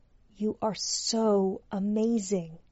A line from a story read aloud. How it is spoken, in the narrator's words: He whispered into her ear